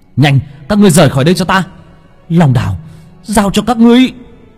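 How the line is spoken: Shouted. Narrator (Vietnamese): Long Vân hét lên

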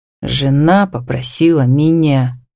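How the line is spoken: Expressive whisper. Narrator (Russian): выразительным шепотом

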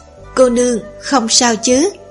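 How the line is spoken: Gentle, smiling. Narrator (Vietnamese): mỉm cười dịu dàng nói

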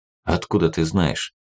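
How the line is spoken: Quiet question. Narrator (Russian): Так же тихо спросил сидящий неподалеку Максим

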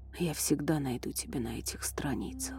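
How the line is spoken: Whisper. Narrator (Russian): прошептал он

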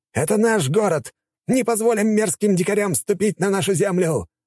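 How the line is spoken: Aristocrat shouting. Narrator (Russian): выкрикнул аристократ, допивший свой напиток

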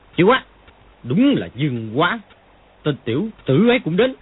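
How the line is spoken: Shocked, angry exclamation. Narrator (Vietnamese): Triệu Chí Kính tức thời sắc diện đại biến, tức giận thốt lên

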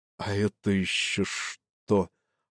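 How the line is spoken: Worried mutter. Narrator (Russian): озабоченно пробормотал он

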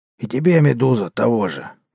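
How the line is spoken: Hoarse rasp. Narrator (Russian): прохрипел торговец

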